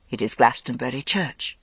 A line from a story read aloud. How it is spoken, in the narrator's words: said Morgaine, surprised that her voice was so calm